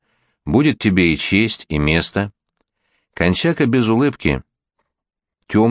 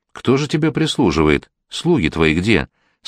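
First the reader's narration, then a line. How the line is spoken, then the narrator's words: Kind asking voice. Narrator (Russian): спрашивал Михаил добрым голосом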